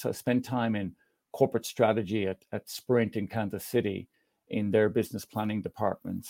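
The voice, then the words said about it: Irish accent with American influence. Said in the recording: “as you can detect, it's an Irish accent that's been in America for a number of years”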